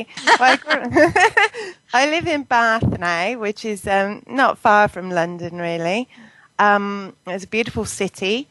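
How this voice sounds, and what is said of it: English accent. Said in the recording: “Obviously, you're from England ... you have this wonderful accent.”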